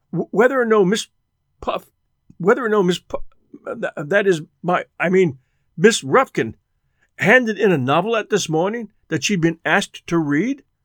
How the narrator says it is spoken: he stammered

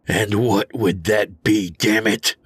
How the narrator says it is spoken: I growled

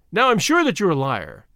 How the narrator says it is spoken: said Din Djan triumphantly

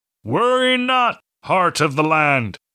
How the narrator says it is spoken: yell as he was carried beyond her sight

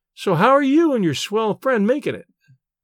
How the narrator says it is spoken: she asked

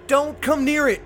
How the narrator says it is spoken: I yelled

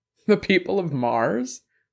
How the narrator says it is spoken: Jules laughed

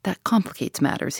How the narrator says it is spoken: he murmured thoughtfully

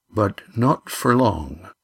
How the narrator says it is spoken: said Skarm softly

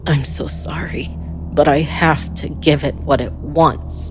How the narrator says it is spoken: he said through gritted teeth

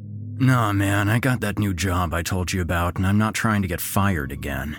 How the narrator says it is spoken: Mike grumbled

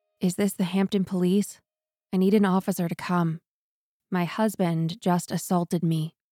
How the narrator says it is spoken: she calmly walked over to the phone, dialed a number, and said

